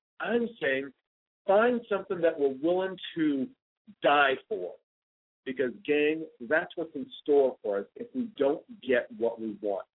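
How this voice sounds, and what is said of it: Excited, enthusiastic voice. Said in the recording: “my voice is a little excited today”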